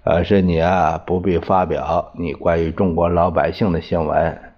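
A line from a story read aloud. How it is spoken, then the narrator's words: Cool faint smile. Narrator (Chinese): 司徒雷登淡淡的笑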